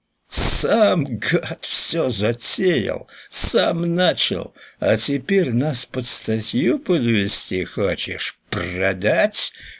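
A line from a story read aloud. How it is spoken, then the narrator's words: Hoarse wheezing. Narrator (Russian): хрипел Хлюпик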